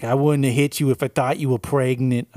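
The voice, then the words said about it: Put-on New England-ish accent. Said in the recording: “some kind of New England-ish accent ... That's going to be my Hilary Swank voice ... It's not that much better.”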